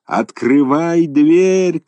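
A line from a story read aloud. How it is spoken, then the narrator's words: Fishermen shouting together. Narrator (Russian): кричали рыбаки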